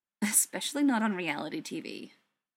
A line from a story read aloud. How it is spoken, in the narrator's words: Tony muttered